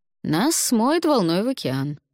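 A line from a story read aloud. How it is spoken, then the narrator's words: Nervous laugh. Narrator (Russian): нервно рассмеялся Алвар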